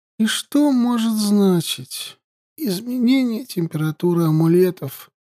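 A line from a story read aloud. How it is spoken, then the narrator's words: Childish mumble. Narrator (Russian): По-детски промямлив, спросила я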